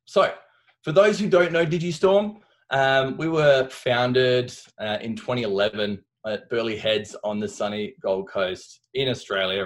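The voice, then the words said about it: Australian accent. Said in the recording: “I've managed to keep my Aussie accent”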